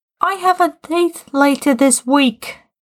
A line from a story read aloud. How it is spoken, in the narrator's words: Tim shouted